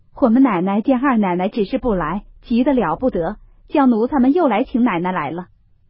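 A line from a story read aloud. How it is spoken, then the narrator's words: Smiling. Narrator (Chinese): 两三个婆子慌慌张张的，笑说道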